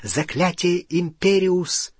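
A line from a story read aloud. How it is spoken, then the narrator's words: Whisper. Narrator (Russian): впервые в жизни прошептал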